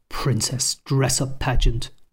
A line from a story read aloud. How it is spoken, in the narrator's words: muttered the Colonel, embarrassed by the activity her parents were forcing her to do at the camp